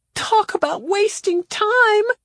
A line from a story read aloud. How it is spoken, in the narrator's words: Claudia screamed